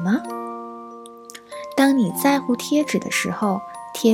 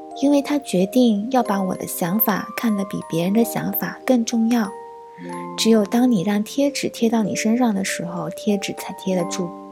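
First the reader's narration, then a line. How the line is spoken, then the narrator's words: Gentle speech. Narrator (Chinese): 创造者温柔地说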